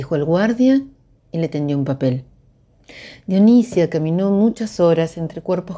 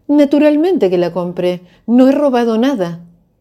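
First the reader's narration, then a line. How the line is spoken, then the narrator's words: Shrill shout. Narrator (Spanish): gritó con voz estridente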